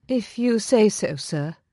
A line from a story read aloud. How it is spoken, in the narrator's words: she said weakly